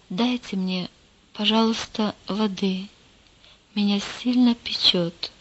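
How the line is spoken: Quiet whisper. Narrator (Russian): тихо прошептал

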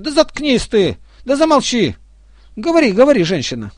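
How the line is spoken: Crowd shouting. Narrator (Russian): все закричали на нее

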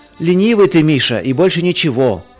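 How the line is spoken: Shout from another room. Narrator (Russian): из ванной крикнул Марк

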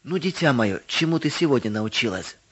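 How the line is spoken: Plain. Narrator (Russian): спросил отец

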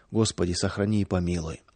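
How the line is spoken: Villagers whispering to themselves. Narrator (Russian): Деревенские шептали про себя

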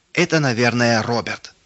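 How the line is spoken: Shouted. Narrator (Russian): выкрикнул Рудик

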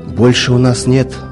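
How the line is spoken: Sighing. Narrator (Russian): вздохнул он

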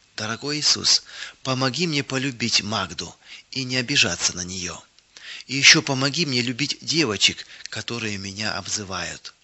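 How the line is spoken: Sincere whispered prayer. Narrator (Russian): она ... искренне шептала

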